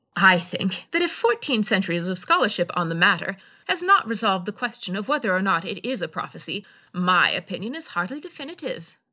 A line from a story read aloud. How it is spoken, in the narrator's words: Darva said dryly